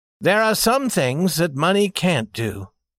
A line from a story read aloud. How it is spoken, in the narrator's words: said the young man rather sadly